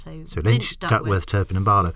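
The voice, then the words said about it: Gurgly bubbling throat voice. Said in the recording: “I've got a slight bubble in my throat ... I thought you were doing an inexplicable Bruce Forsyth impersonation.”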